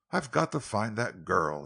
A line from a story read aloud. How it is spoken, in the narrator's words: he muttered